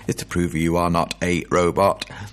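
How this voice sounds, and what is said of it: Robot voice. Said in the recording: “That was a robot voice as opposed to a DJ voice.”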